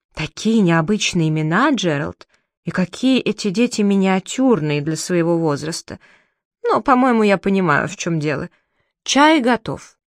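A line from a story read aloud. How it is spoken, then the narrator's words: Whispering. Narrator (Russian): тетя Мэри зашептала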